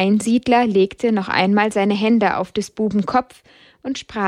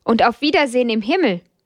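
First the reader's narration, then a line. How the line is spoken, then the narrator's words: Brother calling after. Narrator (German): rief der Bruder ihnen nach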